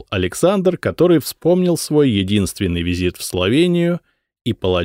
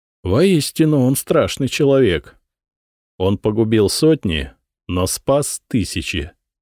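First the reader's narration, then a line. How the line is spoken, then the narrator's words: Calm explanation. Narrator (Russian): спокойно пояснил Вацлав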